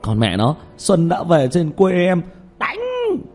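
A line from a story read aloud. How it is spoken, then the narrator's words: Loud shout. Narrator (Vietnamese): Tiểu Mã hét to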